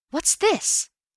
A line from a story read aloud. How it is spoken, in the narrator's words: I gasped